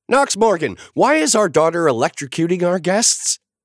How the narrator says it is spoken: Naomi shrieked

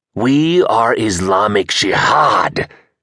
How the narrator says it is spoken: he hissed

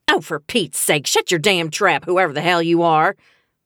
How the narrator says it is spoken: Lurleen snarled

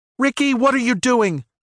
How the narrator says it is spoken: Stacy yelled over the comms

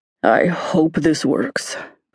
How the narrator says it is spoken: Bouquet grumbled

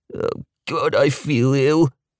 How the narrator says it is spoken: he moaned

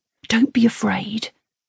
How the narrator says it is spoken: he whispers to the ladybird

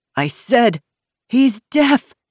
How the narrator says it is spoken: the middle-aged woman cried

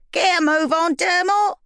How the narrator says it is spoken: Barry shouted

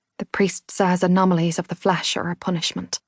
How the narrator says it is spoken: whispered

